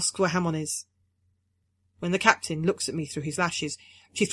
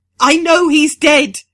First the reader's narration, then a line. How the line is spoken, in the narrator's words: she screams